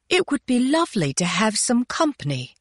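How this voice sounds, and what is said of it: Imitated English accent, fairly convincing. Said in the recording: “doing a pretty good version of Mrs. Rose's English accent”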